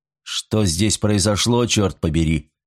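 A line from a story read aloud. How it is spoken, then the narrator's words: Cold demand. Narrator (Russian): холодно потребовал объяснений Николсон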